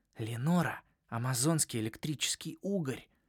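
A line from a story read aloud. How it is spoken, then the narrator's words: Whispered. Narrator (Russian): шепнул мне Джаспер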